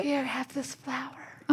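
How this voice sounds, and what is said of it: Weak, sickly orphan voice. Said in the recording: “Are you sick? Why do you sound like a sick Victorian orphan? Are you dying?”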